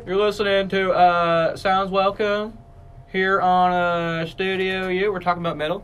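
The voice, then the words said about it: Put-on radio host accent. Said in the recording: “I'm gonna ditch this accent”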